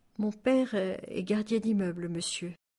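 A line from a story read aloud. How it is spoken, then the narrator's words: Faint voice after pause. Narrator (French): Taha se tut un instant, puis d'une voix faible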